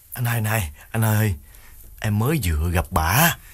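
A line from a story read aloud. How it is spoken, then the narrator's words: Tearful whimper. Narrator (Vietnamese): Đào mếu máo bảo đàn anh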